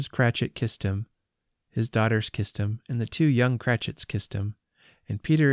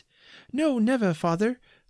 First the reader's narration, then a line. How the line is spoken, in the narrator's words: they all cried again